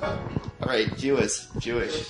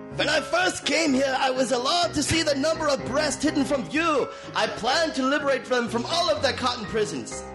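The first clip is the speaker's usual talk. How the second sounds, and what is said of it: Put-on German accent. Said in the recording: “The next quote-unquote accent. ... Oh, German.”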